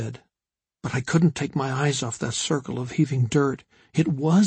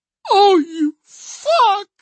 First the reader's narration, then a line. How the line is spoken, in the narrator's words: Henry screamed